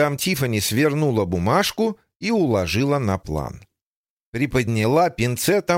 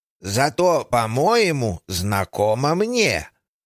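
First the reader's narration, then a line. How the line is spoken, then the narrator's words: Old woman's drawl. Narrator (Russian): протянула бабушка Джейн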